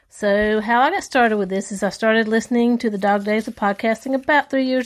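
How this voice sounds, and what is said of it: Strong Southern American accent. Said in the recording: “have such a strong Southern accent”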